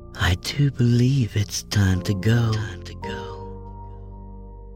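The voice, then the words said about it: Ethereal, beautiful female voice. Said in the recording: “in an ethereally beautiful voice”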